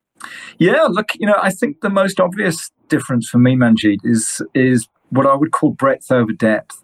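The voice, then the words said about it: Speaks with a non-local accent. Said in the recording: “people seem to forgive me my accent”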